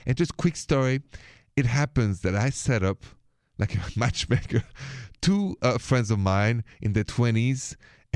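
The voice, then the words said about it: French accent. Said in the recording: “my accent is from France, from Paris.”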